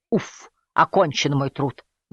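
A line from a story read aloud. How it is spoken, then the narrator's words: Relieved sigh. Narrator (Russian): вздохнул Джулиус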